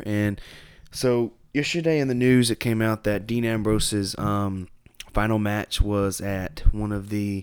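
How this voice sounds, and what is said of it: Hoarse, congested voice that breaks. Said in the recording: “I am sick, man. I'm sick. Some kind of sinus infection. ... Losing my voice as we speak. You'll hear my voice break every now and then.”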